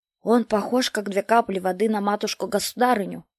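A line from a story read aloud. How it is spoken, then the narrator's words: Whispered reply. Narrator (Russian): шепотом отвечал тот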